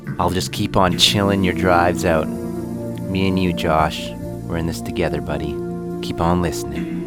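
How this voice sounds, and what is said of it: Smooth, relaxed radio voice. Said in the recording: “I have my smooth radio voice, you know? Is that what it is? Smooth radio voice.”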